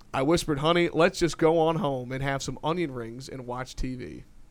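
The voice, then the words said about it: Put-on country accent. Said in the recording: “I apparently need to try and do my best country accent for this”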